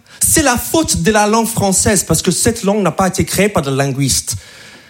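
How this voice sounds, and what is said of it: American accent speaking French. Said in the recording (French): “je suis pas français, je suis américain, donc je parle vraiment comme ça ... C'est mon vrai accent”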